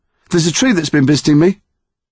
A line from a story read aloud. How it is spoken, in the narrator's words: he said, talking quickly